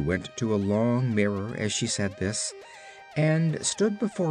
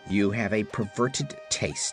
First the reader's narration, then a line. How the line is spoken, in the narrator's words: snapped Margolotte, much annoyed at this frank criticism